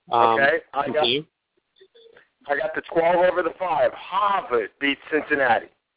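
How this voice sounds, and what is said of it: Boston accent. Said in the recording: “your Boston accent coming back”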